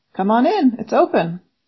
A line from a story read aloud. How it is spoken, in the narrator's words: a voice called out